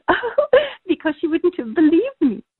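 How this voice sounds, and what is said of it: Impression of Glinda. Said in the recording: “That was a frighteningly good impression”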